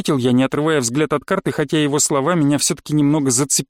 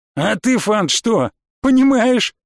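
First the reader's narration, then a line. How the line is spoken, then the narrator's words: Loud laughter. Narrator (Russian): Рубарис захохотал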